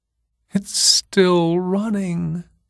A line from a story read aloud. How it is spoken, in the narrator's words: she whimpered